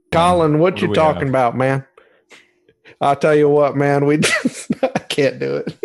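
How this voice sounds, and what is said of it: Imitates another person's voice. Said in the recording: “Gruden impersonations? ... my impersonation”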